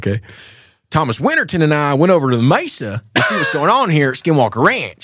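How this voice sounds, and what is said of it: Imitates an Alabama speaker's voice. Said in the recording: “does the most perfect impersonation of ... Dr. Taylor, he's from Alabama. He's from Huntsville ... It's so perfect.”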